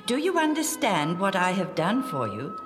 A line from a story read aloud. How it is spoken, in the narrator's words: Jesus asked them